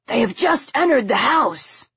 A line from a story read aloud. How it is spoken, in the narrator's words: Henry called in a hoarse whisper